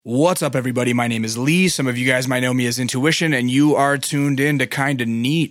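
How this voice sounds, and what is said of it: Slightly raspy voice. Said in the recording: “My voice is a little raspy ... I lost my voice at a title fight”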